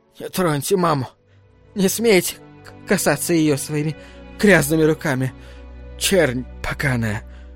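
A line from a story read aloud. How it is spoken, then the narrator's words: Terrible whisper. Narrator (Russian): Шепот ее был так страшен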